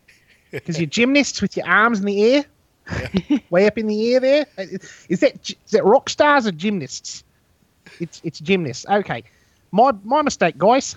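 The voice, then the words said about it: New Zealand accent imitating Murray. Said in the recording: “my New Zealand voice ... me imitating Murray ... talking like this”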